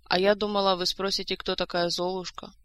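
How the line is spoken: Sad, soft reply. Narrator (Russian): грустно ответила Ольга, стараясь говорить помягче

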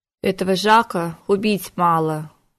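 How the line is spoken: Sorrowful sigh. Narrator (Russian): горестно вздохнула волшебница

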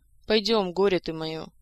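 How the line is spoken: Sighing. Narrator (Russian): вздохнула Саэта

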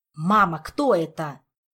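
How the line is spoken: Irritated interruption. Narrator (Russian): раздраженно перебил Артуру

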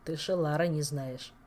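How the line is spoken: Hmphing. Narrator (Russian): хмыкнул Элмар

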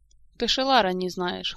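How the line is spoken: Snorting. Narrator (Russian): хмыкнул Элмор

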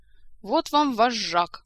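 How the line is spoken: Grumble. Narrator (Russian): проворчал мэтр Истран

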